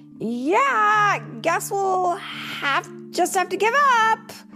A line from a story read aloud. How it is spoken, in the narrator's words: the Flash yelled